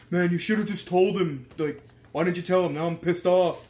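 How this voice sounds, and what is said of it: Imitates another person's voice. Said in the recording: “That's a really great Adam impression.”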